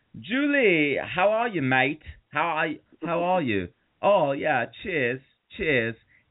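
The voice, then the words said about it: Fake British accent sounding Australian. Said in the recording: “he thinks he's doing a British accent, but he's kind of doing an Australian accent”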